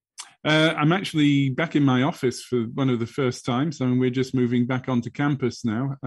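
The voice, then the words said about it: British English accent. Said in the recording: “you'll understand from my accent that I'm a POM, definitely from the UK”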